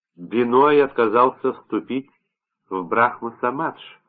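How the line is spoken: Plain. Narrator (Russian): сказал Порош

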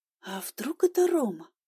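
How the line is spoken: Quiet nervous muttering to self. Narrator (Russian): спросила я тихо у самой себя, нервно покусывая палец

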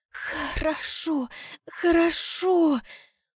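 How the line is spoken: Muffled cursing. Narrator (Russian): глухо ругается

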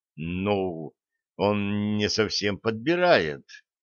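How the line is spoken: Mumbling. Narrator (Russian): промямлил

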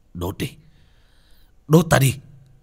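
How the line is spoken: Fierce roar of pain. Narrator (Vietnamese): Bác cổ gầm thét lên đau đớn dữ tợn

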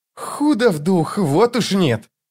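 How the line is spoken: Mocking through teeth. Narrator (Russian): с издевкой процедил Крокус

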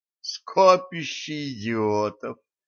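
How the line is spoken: Groaning. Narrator (Russian): простонал Эльгард

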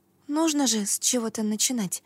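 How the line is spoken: Whisper. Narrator (Russian): прошептала я

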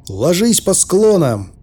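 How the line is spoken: Shouted. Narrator (Russian): крикнул я

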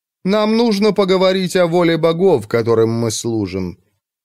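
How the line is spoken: Scornful snort. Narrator (Russian): Анит презрительно хмыкнул

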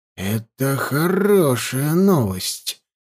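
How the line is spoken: Quiet speech. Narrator (Russian): тихо проговорил Невид

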